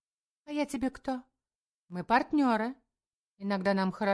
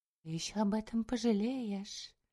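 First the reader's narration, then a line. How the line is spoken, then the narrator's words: Whisper. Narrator (Russian): прошептала Карина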